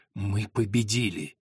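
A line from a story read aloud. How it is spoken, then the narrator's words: Barely contained triumphant whisper. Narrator (Russian): Приор едва сдерживая свое торжество, прошептал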